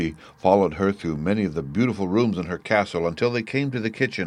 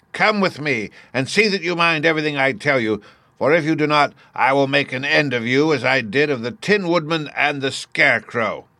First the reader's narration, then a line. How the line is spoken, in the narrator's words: she said to Dorothy, harshly and severely